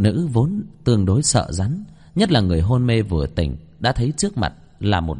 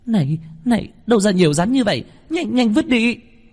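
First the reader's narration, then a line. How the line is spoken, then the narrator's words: Frightened girl screams. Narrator (Vietnamese): Nữ hài tóc đỏ, sợ hãi hét lên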